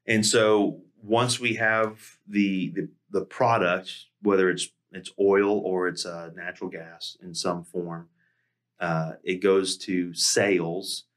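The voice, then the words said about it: Southern accent, words run together. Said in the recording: “That Southern accent. It just runs together.”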